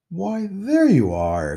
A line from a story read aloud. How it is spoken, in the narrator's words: exclaimed the woman